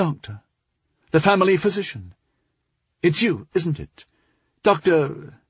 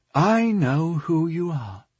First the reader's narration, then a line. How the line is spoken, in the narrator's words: Delmar said in a low, confiding tone